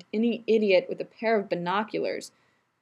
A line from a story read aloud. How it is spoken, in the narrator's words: Rodney groaned